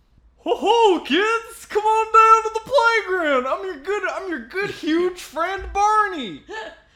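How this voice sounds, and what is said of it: Goofy cartoon dinosaur character voice. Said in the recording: “my Barney imitation ... He's a little deeper and a little more, like, goofy.”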